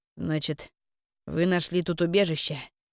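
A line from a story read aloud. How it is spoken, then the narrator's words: Flat statement, snorting. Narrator (Russian): констатировал Тарун, и, хмыкнув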